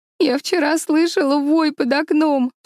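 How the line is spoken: Sobbing. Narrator (Russian): всхлипывала Эми

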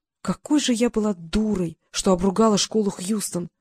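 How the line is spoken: Breathless female muttering. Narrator (Russian): пробормотала она, пытаясь поглубже вздохнуть, стянутая тугим корсетом

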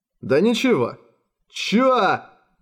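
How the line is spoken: Guards yelling furiously. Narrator (Russian): яростно заорали в то же мгновение стражники, решившие, что их обманули

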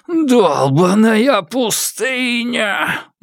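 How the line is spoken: Howl. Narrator (Russian): взвыл он

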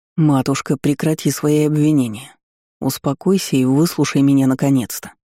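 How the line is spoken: Near growl. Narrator (Russian): почти прорычал дракон

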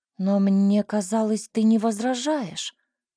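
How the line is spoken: Confused mumble. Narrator (Russian): растерянно пробормотала я в ответ

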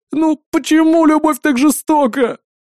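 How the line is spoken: Howling. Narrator (Russian): взвыл Колыбалов

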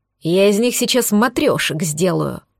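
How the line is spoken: Hiss. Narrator (Russian): прошипел

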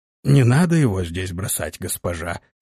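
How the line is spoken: Hoarse reply. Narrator (Russian): хрипло ответил тот

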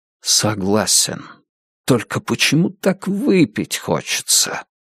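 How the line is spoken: Quiet. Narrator (Russian): Кошко тихо произнес

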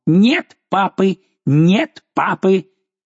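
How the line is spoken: Shouting. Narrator (Russian): один из них крикнул

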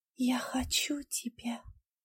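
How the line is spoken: Whisper. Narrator (Russian): прошептала она Конраду

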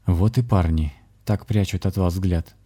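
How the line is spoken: Soft smiling shaman. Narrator (Russian): мягко улыбнулся шаман

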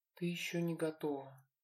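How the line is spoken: Muttered absently. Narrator (Russian): пробормотал Люк, словно и не ей вовсе

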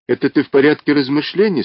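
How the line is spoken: Plain, mammoth. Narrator (Russian): спросил мамонт

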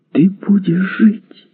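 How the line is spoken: Exclamation. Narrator (Russian): воскликнула она

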